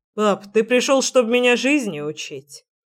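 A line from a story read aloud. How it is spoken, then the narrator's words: Grumble. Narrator (Russian): проворчал Генрих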